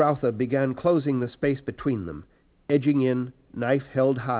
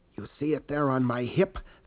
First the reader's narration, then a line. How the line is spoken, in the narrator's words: Fade Rautha whispered